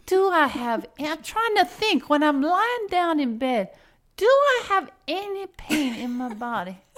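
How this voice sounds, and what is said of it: Put-on Cajun accent. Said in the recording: “Maxine, who is Cajun, and I know you don't think I do a good Cajun accent.”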